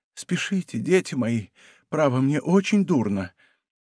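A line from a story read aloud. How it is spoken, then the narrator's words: Weak repeated voice. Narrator (Russian): Он повторял слабым голосом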